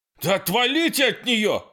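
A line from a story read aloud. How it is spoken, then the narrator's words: Yelling. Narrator (Russian): заорал Курт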